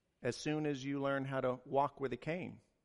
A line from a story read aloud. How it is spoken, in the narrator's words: she replied